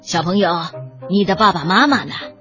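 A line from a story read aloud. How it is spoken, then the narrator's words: Muffled male voice. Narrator (Chinese): 警察的声音闷闷的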